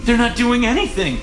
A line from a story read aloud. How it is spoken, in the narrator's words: she gasped